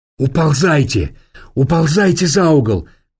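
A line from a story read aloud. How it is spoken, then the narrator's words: Shouted. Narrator (Russian): крикнул ей Ираст Петрович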